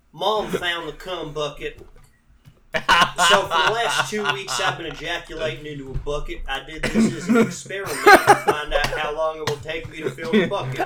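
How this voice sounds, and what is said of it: Reads in a disguised voice. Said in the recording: “in a different voice so that it's doesn't sound like me”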